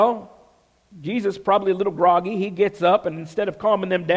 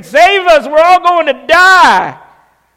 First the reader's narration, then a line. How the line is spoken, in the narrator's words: probably screaming